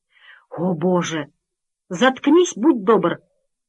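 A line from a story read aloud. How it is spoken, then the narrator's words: Flustered nanny, strained. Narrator (Russian): выдавила в смятении няня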